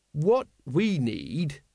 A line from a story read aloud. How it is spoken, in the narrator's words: he said slowly